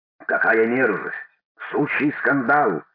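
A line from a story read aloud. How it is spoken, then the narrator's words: Growling. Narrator (Russian): рычал Иоанн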